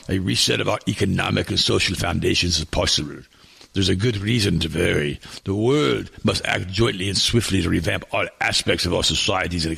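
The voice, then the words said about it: Put-on German accent. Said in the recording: “I got to get rid of the German accent.”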